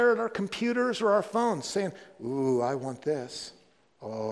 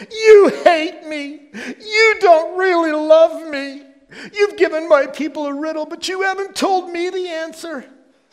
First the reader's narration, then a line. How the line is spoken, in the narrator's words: threw herself on him, sobbing